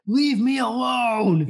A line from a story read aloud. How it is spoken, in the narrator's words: he yells at her